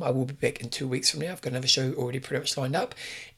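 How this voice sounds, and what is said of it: Strained, failing voice. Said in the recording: “my voice is about to stop”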